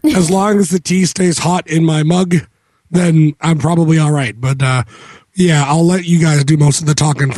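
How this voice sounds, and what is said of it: Hoarse, nearly lost voice. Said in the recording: “He's losing his voice today, lost his voice today completely. He's getting over a cold”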